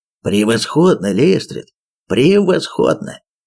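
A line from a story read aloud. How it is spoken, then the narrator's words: Exclaiming. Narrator (Russian): воскликнул он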